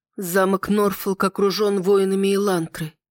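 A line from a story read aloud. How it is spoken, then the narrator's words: Hollow, horrified voice. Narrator (Russian): глухим голосом изрекла, с трудом осознавая весь ужас, что ждет нас впереди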